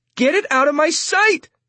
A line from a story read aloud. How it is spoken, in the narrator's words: she yells at Roberta